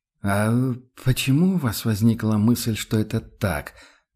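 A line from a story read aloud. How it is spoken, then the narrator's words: Uncertain inquiry. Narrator (Russian): осведомился Матиас все так же неуверенно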